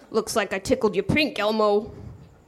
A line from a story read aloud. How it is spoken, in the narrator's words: growled into his ear